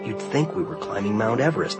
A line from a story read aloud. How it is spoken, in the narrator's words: Micah whispered